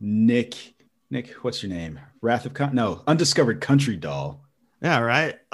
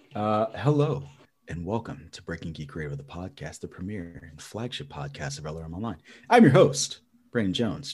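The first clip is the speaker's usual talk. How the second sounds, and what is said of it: Put-on sexy voice. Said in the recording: “trying to do my sexy voice.”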